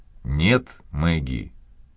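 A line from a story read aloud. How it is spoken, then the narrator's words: Calm. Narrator (Russian): Наконец он сказал спокойно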